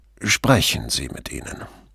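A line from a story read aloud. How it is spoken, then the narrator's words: Quiet answer. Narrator (German): Pater beugte sich vor und antwortete leise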